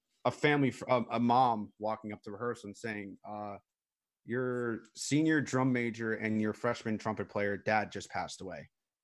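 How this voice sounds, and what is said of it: Choked-up, emotional voice. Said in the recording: “I'm getting choked up just talking about this stuff”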